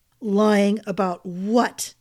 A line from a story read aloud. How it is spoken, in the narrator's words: he growled